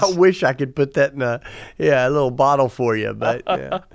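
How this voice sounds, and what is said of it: Southern American accent. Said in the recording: “your accent ... Southern American ... Southern ... Tennessee ... deep south”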